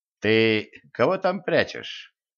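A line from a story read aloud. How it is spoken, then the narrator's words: Insinuating question. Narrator (Russian): вкрадчиво поинтересовался царь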